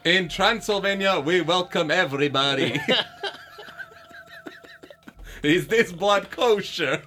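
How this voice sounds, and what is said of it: Impression of a Transylvanian rabbi. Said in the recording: “your fucking impression of a fucking Transylvanian rabbi”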